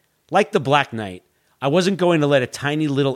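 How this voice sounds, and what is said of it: Usual voice. Nothing is said of it.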